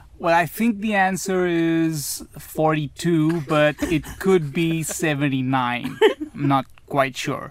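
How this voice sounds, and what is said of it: Put-on American accent. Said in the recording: “Some of the American accent? ... The American accent that Let's you go, would ... Use to cut tension. I want to hear it.”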